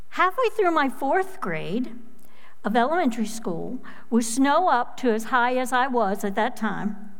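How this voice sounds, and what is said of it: Midwestern American accent. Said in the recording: “you can probably tell from my accent, I was born in Minnesota to Midwestern parents”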